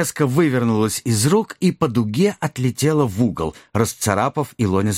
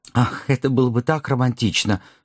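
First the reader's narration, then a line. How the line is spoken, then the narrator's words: Sighed. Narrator (Russian): вздохнул Люстрицкий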